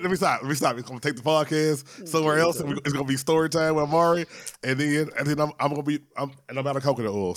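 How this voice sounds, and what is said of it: Rough, congested voice. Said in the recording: “My voice sounds like trash. ... So I feel like I'm yelling. ... My sinuses have been draining.”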